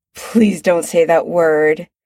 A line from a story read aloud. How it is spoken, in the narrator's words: Chris says, groaning